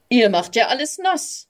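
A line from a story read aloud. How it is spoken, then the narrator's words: Calling out. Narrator (German): rief er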